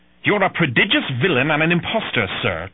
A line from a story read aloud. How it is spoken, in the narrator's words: Trelawney spat at Silver